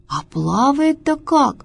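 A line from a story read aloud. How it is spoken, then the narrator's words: Exclaiming. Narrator (Russian): воскликнула жаба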